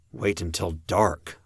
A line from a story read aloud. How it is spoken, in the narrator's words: I murmured